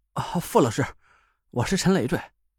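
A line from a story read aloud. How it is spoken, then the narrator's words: Panting call. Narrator (Chinese): 我喘着粗气，叫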